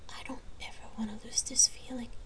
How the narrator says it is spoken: Jamie whispered

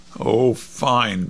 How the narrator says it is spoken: Bud groaned

